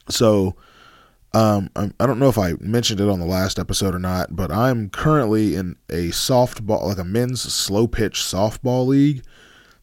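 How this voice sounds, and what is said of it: Strained, fading voice with sniffling. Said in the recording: “my voice sounds a little funny. I, I think I've just been doing a lot of screaming, so my voice is sort of going away ... you hear me sniffling”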